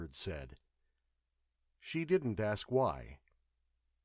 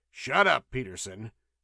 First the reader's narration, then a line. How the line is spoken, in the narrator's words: the chief snapped